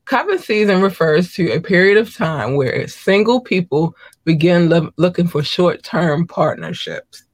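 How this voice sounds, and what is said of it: Hoarse voice. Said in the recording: “excuse my hoarseness”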